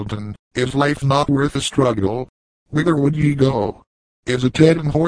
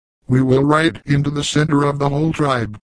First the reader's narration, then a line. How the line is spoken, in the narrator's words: returned the youth fiercely